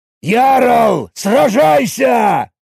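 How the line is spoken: Roar. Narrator (Russian): Взревел Багратион

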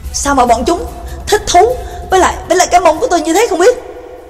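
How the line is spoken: Angry snap. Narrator (Vietnamese): Trương Lập tức tối gắt lên

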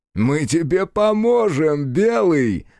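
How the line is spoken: Soldiers laughing loudly. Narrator (Russian): захохотали бойцы

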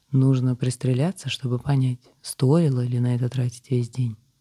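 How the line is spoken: Calm reply. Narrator (Russian): спокойно ответил мужчина

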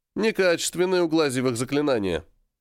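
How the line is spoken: Knowing snort. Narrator (Russian): понимающе хмыкнул и сказал

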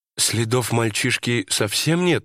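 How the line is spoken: Uncertain question. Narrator (Russian): неуверенно спросила жена

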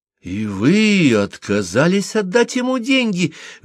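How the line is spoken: Exclaiming. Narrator (Russian): воскликнула Лайлани

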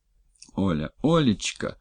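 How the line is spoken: Tender. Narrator (Russian): ласково проговорил Дмитрий

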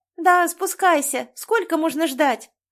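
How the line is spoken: Girl's shout. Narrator (Russian): А это уже девочка крикнула

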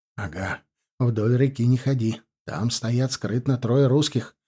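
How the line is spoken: Whisper. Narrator (Russian): прошептал

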